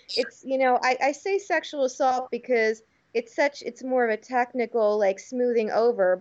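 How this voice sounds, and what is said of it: Agitated, upset voice. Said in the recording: “as you can hear in my voice, I'm a bit riled up”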